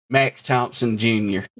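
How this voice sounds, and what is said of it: Attempted Southern accent drifting Russian. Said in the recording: “Wrong accent. ... I can't do my Southern. I keep going to Russian.”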